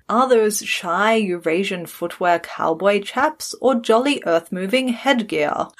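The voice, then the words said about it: Posh British RP accent. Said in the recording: “Can you do RP? ... the posh British BBC accent.”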